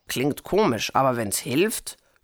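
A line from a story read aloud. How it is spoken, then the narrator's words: Grunt. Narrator (German): grunzte Pupsi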